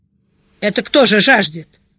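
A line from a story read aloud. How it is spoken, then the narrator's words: Loud snorting question. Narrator (Russian): громко сопя спросил Шидарис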